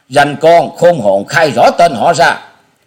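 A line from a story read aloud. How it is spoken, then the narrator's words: Loud demanding shout. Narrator (Vietnamese): Một tên trong bọn lớn tiếng quát hỏi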